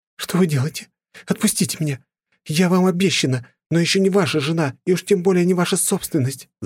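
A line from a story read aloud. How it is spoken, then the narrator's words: Struggling scream. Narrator (Russian): закричала блондинка, пытаясь вырваться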